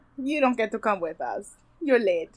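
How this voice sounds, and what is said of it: Unidentified put-on accent. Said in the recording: “I have no idea what accent I'm doing, by the way.”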